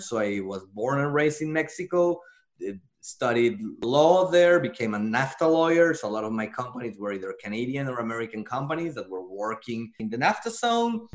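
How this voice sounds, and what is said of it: Mexican accent in English. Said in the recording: “As you can hear by my accent, I'm Mexican-born.”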